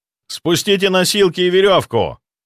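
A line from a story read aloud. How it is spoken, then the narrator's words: Shouting upward. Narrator (Russian): прокричал я, задрав голову вверх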